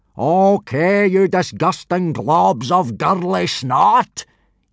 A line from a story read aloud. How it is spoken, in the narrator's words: yelled Gobber, in a bellow so loud it could be heard several miles away